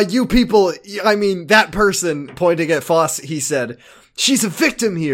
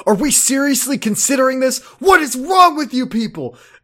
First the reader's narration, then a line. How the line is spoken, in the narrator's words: he yelled